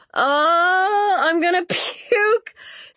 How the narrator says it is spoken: Cynthia screamed, but she was laughing, too

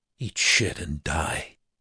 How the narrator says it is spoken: she muttered

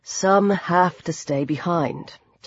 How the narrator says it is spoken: Tom said quietly

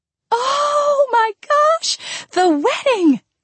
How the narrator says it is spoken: Andrea squealed

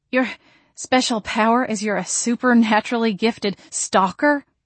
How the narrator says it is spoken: I panted

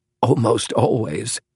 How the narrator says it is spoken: said Howells with a soft chuckle

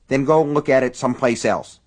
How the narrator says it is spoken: Sally snapped

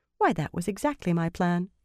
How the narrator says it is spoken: Elaine said sweetly

